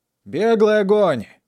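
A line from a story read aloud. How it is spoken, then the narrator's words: Loud command. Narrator (Russian): Громким голосом приказал Сорвиголова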